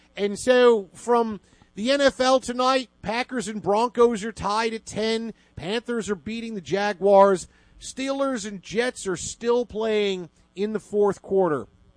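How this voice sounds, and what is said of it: Put-on Philly Pennsylvania accent. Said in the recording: “why is he doing his Philly accent? ... it's a greater Pennsylvania accent. It's Pittsburgh. It's Philadelphia.”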